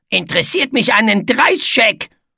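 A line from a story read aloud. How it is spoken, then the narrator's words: Growling. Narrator (German): knurrte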